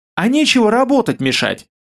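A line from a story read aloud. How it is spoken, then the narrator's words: Snapping. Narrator (Russian): огрызнулась Ралаша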